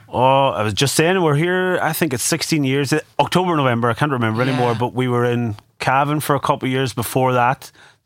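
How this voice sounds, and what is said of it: Warm, rich Donegal Irish accent. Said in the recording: “That is a lovely, warm, rich Donegal accent”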